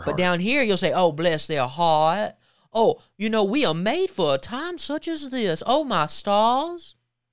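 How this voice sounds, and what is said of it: Mock fake Southern accent, Kamala Harris. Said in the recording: “segment from Kamala Harris. The first one is the fake Southern accent. ... suddenly they have a Southern accent. ... So she does the fake country accent, fake Southern accent”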